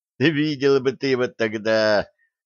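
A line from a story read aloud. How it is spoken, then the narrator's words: Loud laughing voice. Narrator (Russian): захохотала уже в голос Лепесткова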